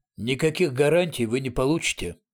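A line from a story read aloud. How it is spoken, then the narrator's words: Calm flagship commander. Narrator (Russian): спокойно произнес флагман Макамбер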